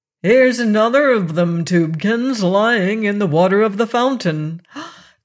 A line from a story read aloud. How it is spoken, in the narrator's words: a voice exclaimed